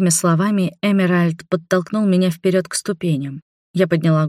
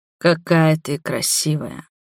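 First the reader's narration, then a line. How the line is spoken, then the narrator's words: Muffled low voice. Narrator (Russian): глухо проговорил он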